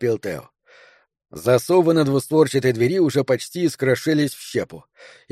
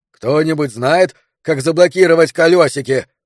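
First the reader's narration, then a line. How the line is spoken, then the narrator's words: Loud question. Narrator (Russian): громко спросил Роберт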